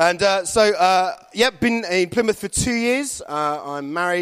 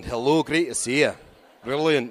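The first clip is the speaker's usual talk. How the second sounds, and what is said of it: Slight Irish accent. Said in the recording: “Slightly Irish accent there”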